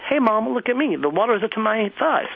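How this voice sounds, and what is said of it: High-pitched voice. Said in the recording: “My voice is really high.”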